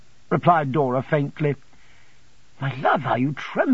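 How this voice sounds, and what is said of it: Usual voice. Nothing is said of it.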